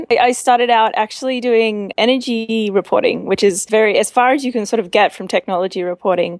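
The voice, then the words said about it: Australian accent. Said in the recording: “I'm Australian. I'm not. You can probably tell that from my accent.”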